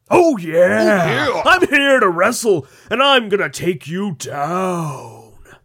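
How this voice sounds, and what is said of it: Randy 'Macho Man' Savage impression. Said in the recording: “Randy the Macho Man Savage shows up ... Do the voice.”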